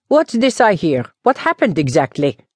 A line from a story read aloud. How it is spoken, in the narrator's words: burst out cheerfully